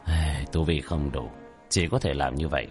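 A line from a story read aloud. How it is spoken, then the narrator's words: Sighing mutter. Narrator (Vietnamese): tiểu thất thở dài, lẩm bẩm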